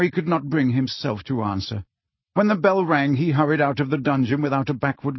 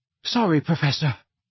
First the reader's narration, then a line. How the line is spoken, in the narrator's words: he panted